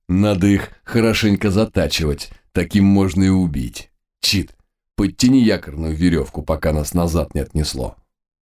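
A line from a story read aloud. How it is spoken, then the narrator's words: Pleased chuckle. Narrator (Russian): Спутник довольно хохотнул и прокомментировал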